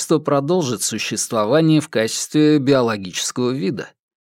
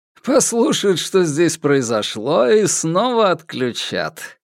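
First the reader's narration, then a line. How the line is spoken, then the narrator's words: Laughing. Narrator (Russian): рассмеялся Соломон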